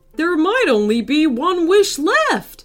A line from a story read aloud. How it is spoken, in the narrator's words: shouted somebody